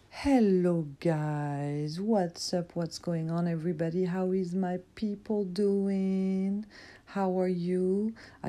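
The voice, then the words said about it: Scratchy, rough-sounding voice. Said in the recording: “my voice sounds messed up ... I have a little situation in my throat ... little throat scratch”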